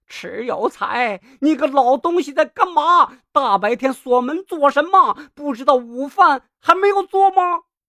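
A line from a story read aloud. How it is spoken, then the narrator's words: Loud immediate question. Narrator (Chinese): 胡氏立即高声问道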